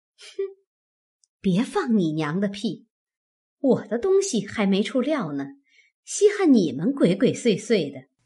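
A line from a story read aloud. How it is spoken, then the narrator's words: Laughing. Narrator (Chinese): 凤姐笑道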